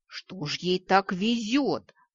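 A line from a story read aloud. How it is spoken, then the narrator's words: Howling. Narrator (Russian): взвыла леди Каракурт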